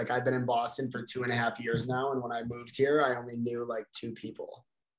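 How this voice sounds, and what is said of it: Upstate New York accent. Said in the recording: “that's the accent that I'm hearing. Not Boston. It's definitely upstate New York.”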